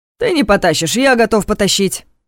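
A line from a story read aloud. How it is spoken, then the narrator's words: Sharp declaration. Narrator (Russian): резко заявил Ваня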